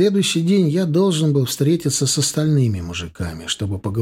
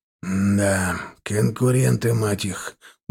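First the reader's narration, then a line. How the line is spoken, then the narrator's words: Muttering. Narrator (Russian): буркнул Седой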